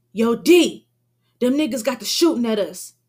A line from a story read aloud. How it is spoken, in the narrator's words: Shaquem blurts out, damn near out of breath